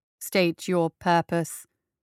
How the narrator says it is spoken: he said in his bass metallic voice

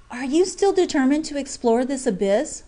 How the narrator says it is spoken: whispered Jack Ryan

